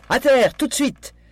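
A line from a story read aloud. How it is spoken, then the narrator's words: Scream. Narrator (French): hurla Daisy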